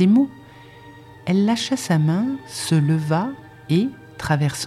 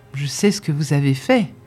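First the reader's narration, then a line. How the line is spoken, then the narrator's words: Plain. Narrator (French): dit Strensom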